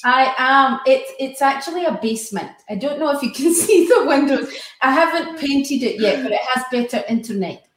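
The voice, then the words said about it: Scottish accent. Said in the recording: “she's from Scotland. You'll hear her accent when she starts speaking.”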